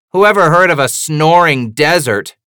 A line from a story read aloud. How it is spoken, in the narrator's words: Frankie shouts